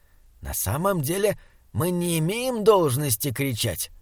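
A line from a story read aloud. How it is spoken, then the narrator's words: Whisper. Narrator (Russian): прошептал он удивленному Саймону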